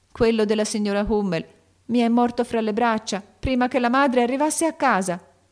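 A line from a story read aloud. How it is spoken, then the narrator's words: Sobbing cry. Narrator (Italian): gridò Beth con un singhiozzo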